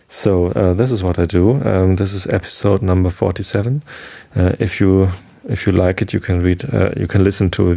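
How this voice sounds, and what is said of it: German-accented English. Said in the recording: “German is my mother tongue and English is just a learned language ... my strange accent”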